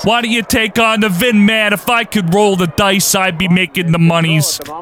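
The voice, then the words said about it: Bad Italian mafia accent. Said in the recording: “It's my impression of Italian person ... The worst fucking mafia accent ever ... Absolutely atrocious.”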